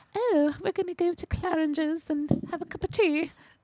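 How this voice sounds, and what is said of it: Put-on posh British accent. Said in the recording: “if you speak in a British accent, you are automatically smarter, classier ... you just sound so much better ... at some point you're going to have to do a British accent ... not just me”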